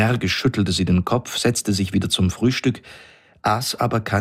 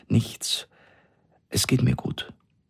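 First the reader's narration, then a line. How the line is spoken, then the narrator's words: Trembling voice. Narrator (German): sagte sie mit zitternder Stimme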